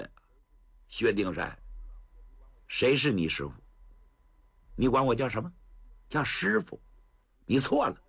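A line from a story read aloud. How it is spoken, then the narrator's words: Cold. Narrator (Chinese): 王禅，那张脸往下一沉，好不吓人呐，冷冷地说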